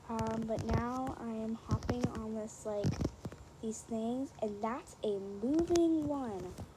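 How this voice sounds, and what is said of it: Low, quiet, soft voice. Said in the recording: “speaking in this low voice ... I do not normally speak like this ... Can I be any quieter?”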